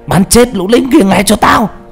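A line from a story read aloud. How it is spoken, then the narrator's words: Shouted command. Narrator (Vietnamese): thằng chỉ huy hét lên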